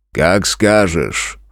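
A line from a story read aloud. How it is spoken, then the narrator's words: Amused grunt. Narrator (Russian): хмыкнул старший из братьев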